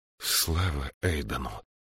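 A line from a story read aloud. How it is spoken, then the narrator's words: Breathless exhale. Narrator (Russian): выдохнул Джошуа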